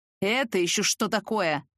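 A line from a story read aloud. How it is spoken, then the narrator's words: Growl. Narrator (Russian): раздалось рычание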